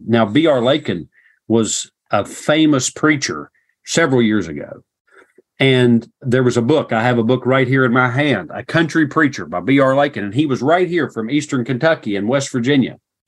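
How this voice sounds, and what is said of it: Regional American accent. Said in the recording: “because of my accent ... here I have this accent. And I think it was probably worse then than it is now. Had this accent”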